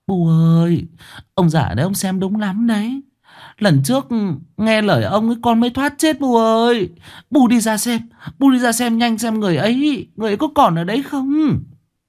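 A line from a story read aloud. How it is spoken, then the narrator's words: Tearful, about to cry. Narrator (Vietnamese): Bà Hoán mếu máo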